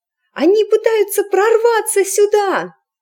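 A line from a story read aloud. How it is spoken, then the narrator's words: Shrill squeal. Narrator (Russian): взвизгнула эск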